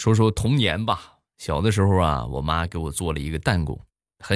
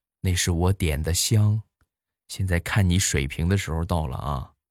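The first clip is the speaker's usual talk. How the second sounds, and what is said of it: Whispered, quiet voice. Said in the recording (Chinese): “小声的就跟我说”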